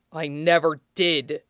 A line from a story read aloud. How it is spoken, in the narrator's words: Toshinori hissed, shoulders shaking